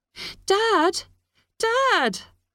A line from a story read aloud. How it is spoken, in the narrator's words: screamed Kira